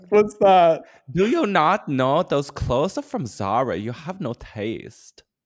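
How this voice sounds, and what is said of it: Put-on German-sounding accent. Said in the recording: “What accent? ... You sound German. ... Maybe a little yeah, Chinese, but a little bit more German.”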